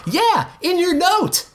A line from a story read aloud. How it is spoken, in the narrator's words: Gene shouted